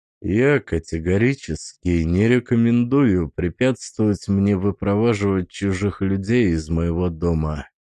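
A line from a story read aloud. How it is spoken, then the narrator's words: Quiet. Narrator (Russian): сказал я тихо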